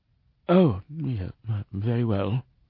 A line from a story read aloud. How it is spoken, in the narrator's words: mumbled